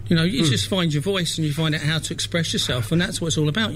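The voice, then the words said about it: Slight London accent. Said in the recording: “You've got a bit of a London accent”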